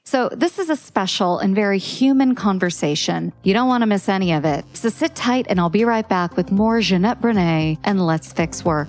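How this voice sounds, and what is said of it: Strong Midwestern American accent. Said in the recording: “I have a very strong Midwestern accent”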